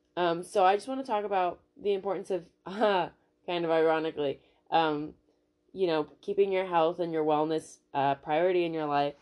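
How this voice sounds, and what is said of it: Nasal, congested voice. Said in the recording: “my voice might sound a little different because I have a cold ... a little bit more nasally today”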